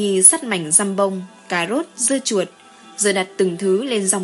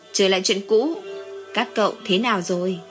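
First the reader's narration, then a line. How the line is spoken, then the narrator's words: Sighing. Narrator (Vietnamese): Vị Hy sững lại một chút, thở dài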